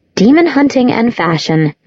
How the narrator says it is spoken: Clary said

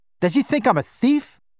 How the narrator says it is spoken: Baba said, his voice rising

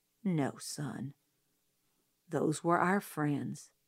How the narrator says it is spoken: he said gently

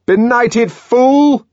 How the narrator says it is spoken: shouted the man from the Fordian Science Monitor

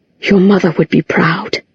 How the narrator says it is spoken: he said, so quietly that even Clary, standing beside him, had to strain to hear it

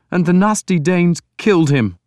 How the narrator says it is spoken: Breeder sobbed

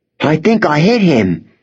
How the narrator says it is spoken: said excitedly

